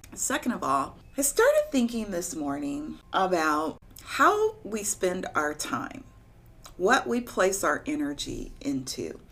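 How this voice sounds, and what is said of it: Slightly slurred speech. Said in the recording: “my mouth is still a little numb, so forgive me if it sounds like I'm slurring”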